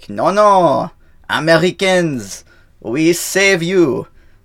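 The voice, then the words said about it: Bad put-on French accent. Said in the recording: “My bad French accent.”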